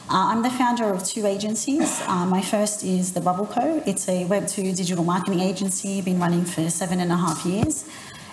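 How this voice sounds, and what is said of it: Australian accent. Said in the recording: “I'm here from Australia, in case you can't tell from my accent.”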